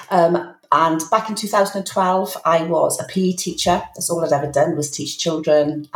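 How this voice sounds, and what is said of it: Welsh accent. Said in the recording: “I live in Wales, hence the accent”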